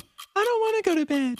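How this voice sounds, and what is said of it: Childlike kid voice. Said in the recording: “things kids say in a kid voice.”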